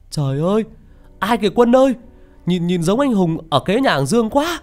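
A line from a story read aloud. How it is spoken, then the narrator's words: Shouting in alarm. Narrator (Vietnamese): nó hét lên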